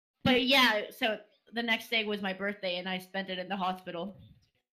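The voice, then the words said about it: Non-native English accent. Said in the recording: “my accent isn't, like, amazing all the time.”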